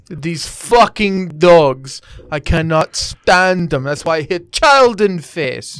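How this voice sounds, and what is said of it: Mock Russian-accented cat character voice. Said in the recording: “the Russian voice for Willie ... do this voice for her where she was a Russian ... Willie was Russian”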